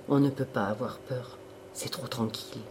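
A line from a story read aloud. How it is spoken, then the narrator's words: Murmuring. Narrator (French): murmura Serge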